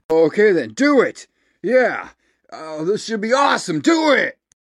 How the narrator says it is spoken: Lance grips his pencil till it snaps into making up his uncertain mind, shouting

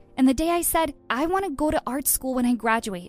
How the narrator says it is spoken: she snapped

